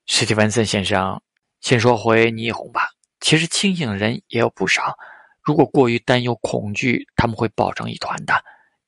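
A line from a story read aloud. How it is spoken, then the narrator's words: Reserved smile, then sigh. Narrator (Chinese): 陶志明矜持的笑了笑，然后叹口气道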